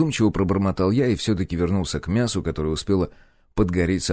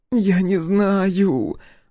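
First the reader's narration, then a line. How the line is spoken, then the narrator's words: Whiny voice breaking into sobs. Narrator (Russian): ноющим голосом ответила и капитально разрыдалась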